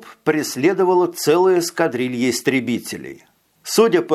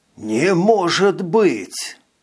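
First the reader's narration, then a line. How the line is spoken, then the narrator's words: Hissing. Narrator (Russian): прошипел Витя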